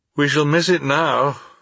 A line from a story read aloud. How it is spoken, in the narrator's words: said I with a sigh